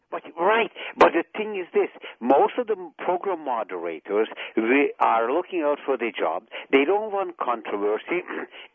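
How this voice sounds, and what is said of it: Hungarian accent. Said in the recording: “from your accent, I gather you came from Hungary.”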